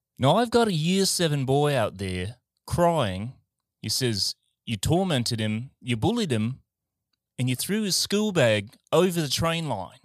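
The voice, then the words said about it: Put-on Australian accent. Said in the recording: “I can say in an Australian accent ... to hear my fucking accents”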